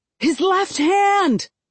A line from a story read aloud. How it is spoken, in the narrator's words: I yell